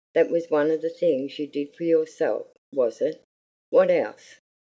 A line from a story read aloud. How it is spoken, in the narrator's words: said the Earl in his deep voice